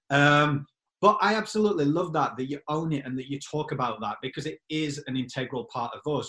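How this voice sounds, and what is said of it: Yorkshire English accent. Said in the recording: “my accent being Yorkshire ... my Yorkshire accent”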